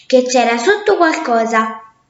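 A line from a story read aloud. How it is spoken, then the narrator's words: Exclamation. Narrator (Italian): esclamò l'orso bianco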